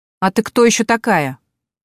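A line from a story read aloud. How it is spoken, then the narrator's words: Sharp aggressive female voice, phone. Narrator (Russian): резко и агрессивно звучит в трубке женский голос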